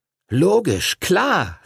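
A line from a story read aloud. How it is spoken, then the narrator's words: Calling out. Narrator (German): rief Arthur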